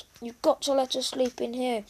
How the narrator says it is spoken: begged Susie

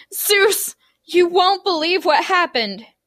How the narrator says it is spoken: yelled

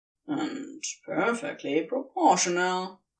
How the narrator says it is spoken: Crowley mutters

